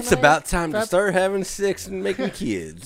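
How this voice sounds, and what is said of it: Put-on redneck accent. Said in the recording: “Why are you talking like a redneck? ... That was a good impression.”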